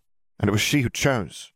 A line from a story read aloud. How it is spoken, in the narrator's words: Riddle said firmly